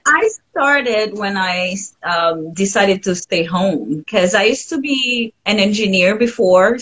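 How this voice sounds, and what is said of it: Mild foreign accent in English. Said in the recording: “Your your accent is not bad at all. ... I can understand you perfectly.”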